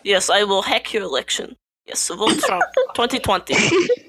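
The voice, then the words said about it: Put-on Russian accent. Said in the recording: “some Russian tips about this accent.”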